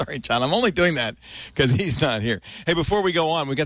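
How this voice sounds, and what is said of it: Usual voice. Nothing is said of it.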